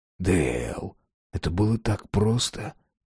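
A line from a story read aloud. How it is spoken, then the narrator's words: Very quiet whisper. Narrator (Russian): прошептал Росс, так что лишь трое могли услышать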